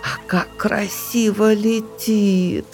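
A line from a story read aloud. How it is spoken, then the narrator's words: Delighted drawl. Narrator (Russian): с восторгом протянула бурундучиха Алила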